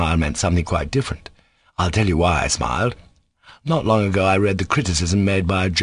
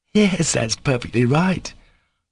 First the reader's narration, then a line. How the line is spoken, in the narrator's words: Kolya laughed suddenly